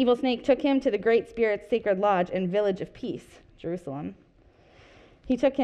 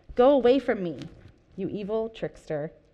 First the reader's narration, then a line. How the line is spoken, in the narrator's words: answered